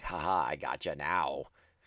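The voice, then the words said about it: Poor impression of a villain's voice. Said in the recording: “terrible Cad Bane impression”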